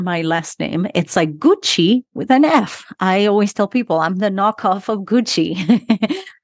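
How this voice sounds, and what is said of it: Argentine Spanish accent in English. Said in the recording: “I am from Argentina, but grew up in Utah... So that's where my accent is from”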